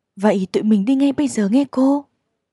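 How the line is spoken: Delighted exclamation. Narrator (Vietnamese): Jane thích thú reo lên

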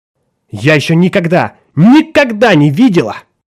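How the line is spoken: Shouting. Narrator (Russian): кричала

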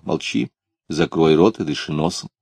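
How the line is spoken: Stern, elder's tone. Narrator (Russian): Клим строго тоном старшего сказал

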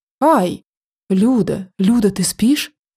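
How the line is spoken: Loud whisper. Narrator (Russian): громко зашептала она

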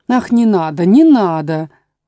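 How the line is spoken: Desperate exclamation. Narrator (Russian): воскликнула королева, в отчаянии

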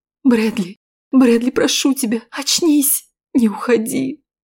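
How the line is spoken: Tearful whisper. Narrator (Russian): Уже сквозь слезы шептала я

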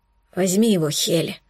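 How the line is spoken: Hoarse, breathless. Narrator (Russian): прохрипел тяжело дыша

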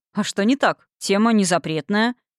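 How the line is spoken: Businesslike tone. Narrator (Russian): Деловым тоном ответил Конрад

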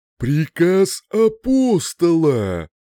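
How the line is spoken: Louder booming hum. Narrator (Russian): Прогудело оно громче

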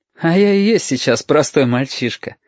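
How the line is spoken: Laughing. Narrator (Russian): опять посмеялся Юртанка

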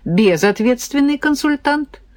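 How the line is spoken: Involuntary giggle. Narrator (Russian): невольно хихикнула

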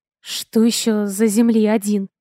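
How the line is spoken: Nervous breathy exhale. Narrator (Russian): Нервно выдохнула

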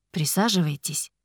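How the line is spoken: Soft offer. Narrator (Russian): мягко предложил он

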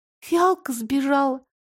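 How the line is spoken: Sad question. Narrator (Russian): грустно спросила Лара

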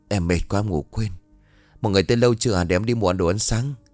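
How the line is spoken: Muttering. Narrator (Vietnamese): Hai miệng lẩm bẩm

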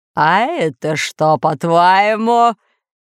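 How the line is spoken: Lord's loud laughter. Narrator (Russian): захохотал повелитель

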